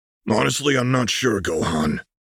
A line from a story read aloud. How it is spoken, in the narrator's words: the Namekian grunted